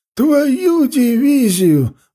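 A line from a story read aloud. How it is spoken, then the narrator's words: Old man's joyful exclamation. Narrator (Russian): воскликнул обрадованно дед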